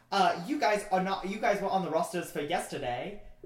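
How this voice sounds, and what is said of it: Bad put-on Scottish accent. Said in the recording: “I just can't do Australia ... So, like, a bad Scottish accent.”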